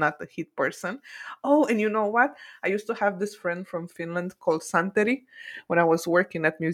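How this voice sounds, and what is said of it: Usual voice. Nothing is said of it.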